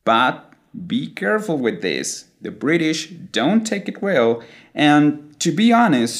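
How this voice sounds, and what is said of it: Usual voice. Nothing is said of it.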